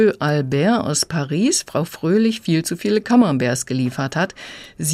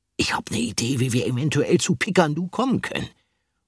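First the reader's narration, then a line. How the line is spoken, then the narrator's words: Murmur. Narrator (German): murmelte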